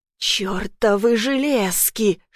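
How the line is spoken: Hissing while struggling. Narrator (Russian): шипел Флетчер, воюя с кандалами

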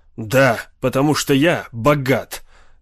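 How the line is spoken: Angry, curt. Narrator (Russian): сердито отрезал Локин

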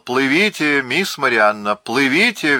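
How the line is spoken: Shout. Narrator (Russian): прокричал

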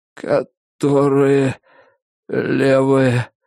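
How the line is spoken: Forced out. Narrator (Russian): выдавил он

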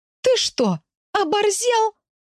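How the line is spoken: Indignant exclamation. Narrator (Russian): воскликнула в искреннем негодовании

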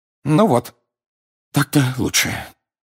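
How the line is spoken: Sighing. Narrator (Russian): вздохнул мистер Уизли

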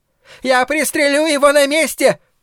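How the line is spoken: Shout. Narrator (Russian): закричал хозяин магазина

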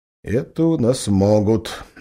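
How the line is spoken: Gloomy spat words. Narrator (Russian): мрачно сплюнул Березов

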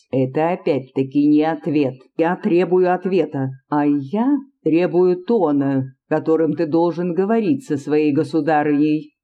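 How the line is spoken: Plain. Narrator (Russian): ответила Анна Иоанновна

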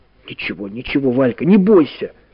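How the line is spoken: Trembling whisper. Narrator (Russian): прошептал Карик дрожащими губами

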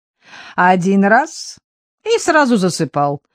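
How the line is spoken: Speaking through laughter. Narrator (Russian): сквозь смех говорила Антонина

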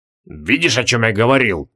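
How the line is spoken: Grumbled. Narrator (Russian): пробурчал Креол

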